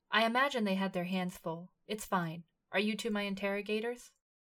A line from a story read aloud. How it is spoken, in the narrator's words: Himmel said smoothly